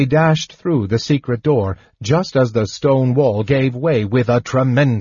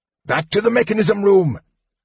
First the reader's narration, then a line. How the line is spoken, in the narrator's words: Fizban cried